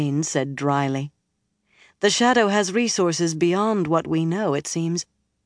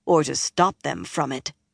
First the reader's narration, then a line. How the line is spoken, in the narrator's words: Nynaeve added grimly